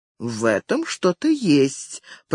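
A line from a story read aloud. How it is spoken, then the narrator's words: Drawn-out, thoughtful. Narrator (Russian): протянул Стивен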